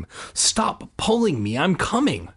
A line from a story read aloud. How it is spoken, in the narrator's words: she snapped